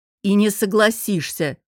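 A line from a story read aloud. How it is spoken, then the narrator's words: Curt, cutting. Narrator (Russian): Отрезал Костя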